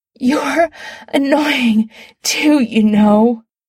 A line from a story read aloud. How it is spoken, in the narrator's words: Adam gasps, eyes squeezing shut, orgasm building at the base of his spine